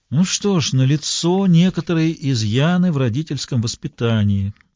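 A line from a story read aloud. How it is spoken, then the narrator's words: Resigned knowing sigh. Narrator (Russian): вздохнул с видом человека, которому известно, чем все закончится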